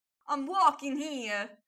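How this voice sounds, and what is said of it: Put-on Italian-American Bronx accent. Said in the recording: “the Italian-American Bronx accent”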